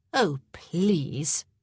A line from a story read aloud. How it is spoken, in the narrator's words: she scoffed